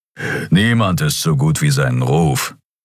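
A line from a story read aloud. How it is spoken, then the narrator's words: Growled. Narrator (German): knurrte Kero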